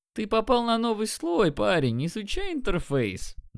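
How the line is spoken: Mocking. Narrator (Russian): Насмешливо сказал он

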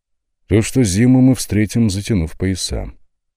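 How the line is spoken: Gloomy. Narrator (Russian): мрачно кивнул Владислав

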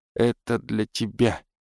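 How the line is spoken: Mumbling. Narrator (Russian): снова пробормотала она

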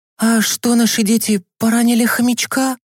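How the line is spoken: Frightened mother asking. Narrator (Russian): испуганно спросила мама Миланы

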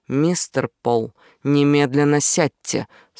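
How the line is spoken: Stern command. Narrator (Russian): строго сказала Агби

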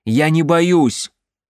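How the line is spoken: Loud into darkness. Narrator (Russian): он сказал это громко в темноту

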